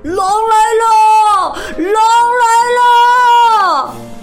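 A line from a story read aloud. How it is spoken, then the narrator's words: Full-strength shout. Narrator (Chinese): 使出全身的力气，喊起来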